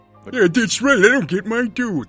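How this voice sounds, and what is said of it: Imitated cartoon character voice, poorly done. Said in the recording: “That was the worst Pete I've ever done. I normally do that voice so much better.”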